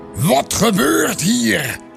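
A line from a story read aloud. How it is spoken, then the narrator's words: Angry bellowing. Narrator (Dutch): bulderde hij boos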